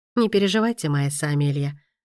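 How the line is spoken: Calm. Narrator (Russian): спокойно ответил

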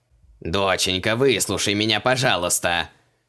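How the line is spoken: Stern, fatherly. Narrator (Russian): Суровым голосом произнес отец

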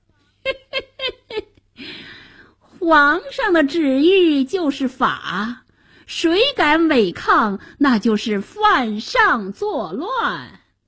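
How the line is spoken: Sinister snickering. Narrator (Chinese): 白脸宰相奸笑着

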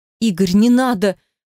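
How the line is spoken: Frightened plea. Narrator (Russian): Уже более испуганно попросила я

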